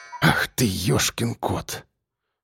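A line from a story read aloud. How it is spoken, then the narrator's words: Startled exhale. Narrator (Russian): выдохнул участковый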